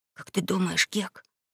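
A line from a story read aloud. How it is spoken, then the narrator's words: Whispered. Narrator (Russian): начал он шепотом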